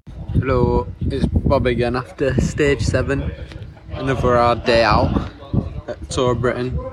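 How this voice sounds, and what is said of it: Put-on accent. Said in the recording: “I don't know why I'm putting on an accent,”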